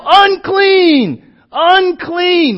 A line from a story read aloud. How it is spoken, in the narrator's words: you literally have to yell